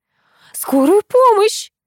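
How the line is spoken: Scream. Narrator (Russian): закричала Нина Анатольевна

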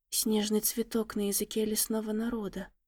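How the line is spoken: Young lady's awed whisper. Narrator (Russian): прошептала юная леди, не в силах оторвать взгляд от происходящего

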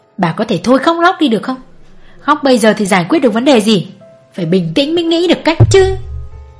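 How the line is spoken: Snapping irritably. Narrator (Vietnamese): Ông gắt

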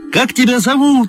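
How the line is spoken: Quick shout. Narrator (Russian): успел крикнуть

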